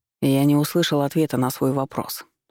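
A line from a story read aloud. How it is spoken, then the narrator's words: Calm. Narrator (Russian): спокойно произнес Валерий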